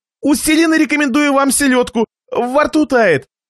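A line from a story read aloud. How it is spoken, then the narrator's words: Exclaimed. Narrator (Russian): Хозяин воскликнул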